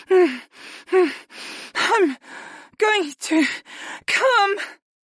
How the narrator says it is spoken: Arwen squeaked

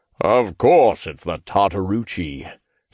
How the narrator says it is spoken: he grumbled

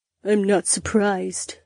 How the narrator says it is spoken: Daisy grumbled

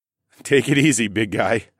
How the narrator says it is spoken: chuckled

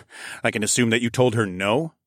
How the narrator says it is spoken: I chuckled

